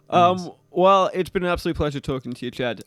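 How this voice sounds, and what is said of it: Manchester English accent. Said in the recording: “I like your accent, man. ... I'm from Manchester, England.”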